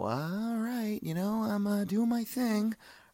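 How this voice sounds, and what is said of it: Imitates another person's voice. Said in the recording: “my Jason Bateman impression”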